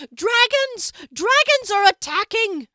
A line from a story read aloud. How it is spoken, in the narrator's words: A woman, shrieking